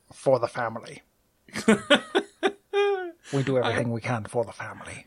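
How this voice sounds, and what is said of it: Imitates a character's voice. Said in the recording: “great Charles Dance impression ... I was Tyrion, actually ... This is your Dinklage?”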